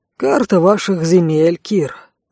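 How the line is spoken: Sighed. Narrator (Russian): вздохнул Рэй

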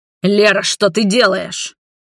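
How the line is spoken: Angry growl. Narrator (Russian): в гневе прорычал Роберт

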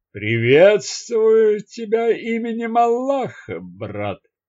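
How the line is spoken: Slow slurred voice. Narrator (Russian): сказал человек несколько замедленным расплывчатым голосом

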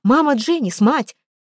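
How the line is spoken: Shouted. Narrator (Russian): Анжелика тоже крикнула

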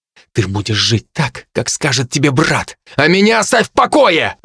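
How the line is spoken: Barking, harsh. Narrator (Russian): рявкнул я на девушку

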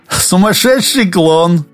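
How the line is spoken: Chuckling. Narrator (Russian): хохотнув, подтвердил Олег

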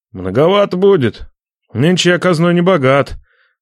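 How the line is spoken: Sad wry chuckle. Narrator (Russian): Грустно усмехнулся Нечай

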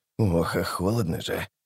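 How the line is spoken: Mutter. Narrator (Russian): бормотал он

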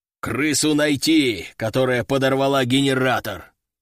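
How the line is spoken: Growl. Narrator (Russian): прорычал он

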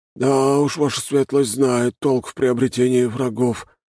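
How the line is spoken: Sighing. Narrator (Russian): вздохнул Даня

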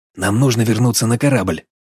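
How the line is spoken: Whispered. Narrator (Russian): шепнул я Гарри

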